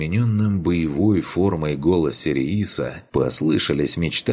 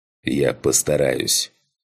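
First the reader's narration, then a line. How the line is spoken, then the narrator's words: Growl. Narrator (Russian): прорычал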